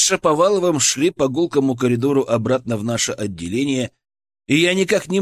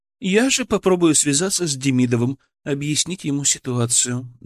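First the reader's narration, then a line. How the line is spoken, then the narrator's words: Softer tone. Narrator (Russian): добавила она уже более мягким тоном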